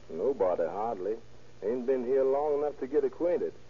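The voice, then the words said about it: Texas accent. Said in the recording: “From Texas, I suppose. ... I can't miss that accent.”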